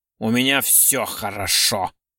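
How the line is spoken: Through gritted teeth. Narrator (Russian): Сквозь зубы процедил Орлов

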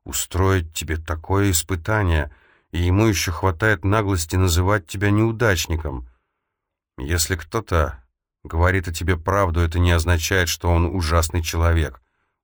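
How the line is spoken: Dejected objection. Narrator (Russian): уныло возразил Лео

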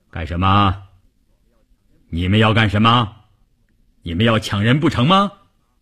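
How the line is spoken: Booming, deafening voice. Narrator (Chinese): 一个大块头，一开口声音炸得人头皮都发麻

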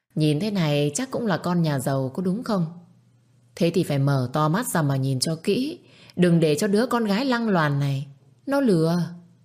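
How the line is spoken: Haughty raised voice. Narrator (Vietnamese): bà Thìn lại tiếp tục lên giọng

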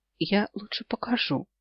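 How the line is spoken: Whisper. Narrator (Russian): шепнула

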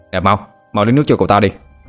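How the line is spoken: Shouted. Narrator (Vietnamese): Cậu pháp sư mập mạp quát lên

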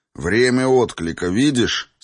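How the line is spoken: Plain. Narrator (Russian): спросил Райнер

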